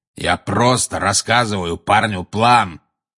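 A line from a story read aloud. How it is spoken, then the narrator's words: Growling. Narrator (Russian): прорычал Грюм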